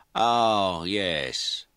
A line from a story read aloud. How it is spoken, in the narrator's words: Lennox said, speaking slowly and deliberately